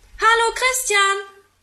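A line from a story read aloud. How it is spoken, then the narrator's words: Calling from a window. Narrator (German): ruft aus dem Fenster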